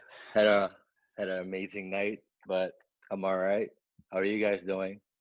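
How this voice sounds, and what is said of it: Slightly hoarse voice. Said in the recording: “I am a little hoarse, as you can tell.”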